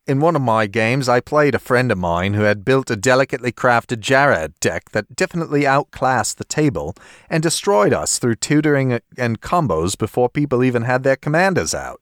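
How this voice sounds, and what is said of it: Put-on Australian accent. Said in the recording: “maybe I should adopt an Australian accent for this one ... If you can pull it off, go ahead. Even if you can't, go ahead.”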